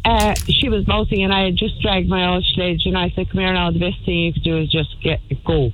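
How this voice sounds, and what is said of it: Strong Irish Kerry accent. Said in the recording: “I have all my Kerry accent out today.”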